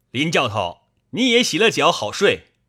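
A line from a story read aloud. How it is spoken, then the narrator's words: Calling out. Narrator (Chinese): 薛霸叫道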